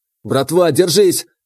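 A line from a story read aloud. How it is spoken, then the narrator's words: Desperate, straining shout. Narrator (Russian): отчаянно крикнул я, сам откинувшись назад и со всей силы отжимаясь от руля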